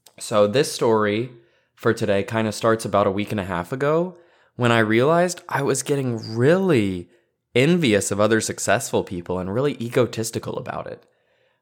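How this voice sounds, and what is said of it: Hoarse, tired voice. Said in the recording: “today I'm just coming to you a little bit hoarse, a little bit tired”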